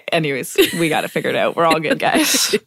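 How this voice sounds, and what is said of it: Smiling, laughing-through voice. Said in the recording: “I don't know if you can tell in my voice,... it's one of those can't stop smiling and it's hard to talk things”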